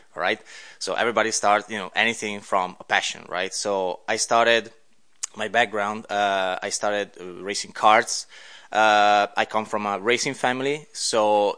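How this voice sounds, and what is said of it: Italian accent. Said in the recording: “you have a bit of an accent there ... hey, I'm Italian”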